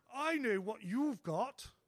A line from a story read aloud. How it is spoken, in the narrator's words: exclaims